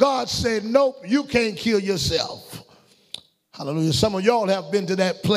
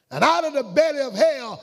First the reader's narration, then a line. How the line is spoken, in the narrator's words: Jonah cried